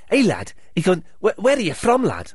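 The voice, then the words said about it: Attempted Scouse accent. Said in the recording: “He had a Scouse accent, but I can't do a Scouse accent.”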